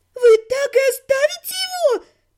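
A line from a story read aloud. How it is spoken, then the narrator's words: Thin-voiced exclamation. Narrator (Russian): тонким голосом воскликнула арчиха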